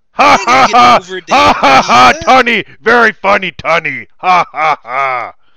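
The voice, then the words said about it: Imitates another person's voice. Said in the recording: “My Bautista impersonation is Drax.”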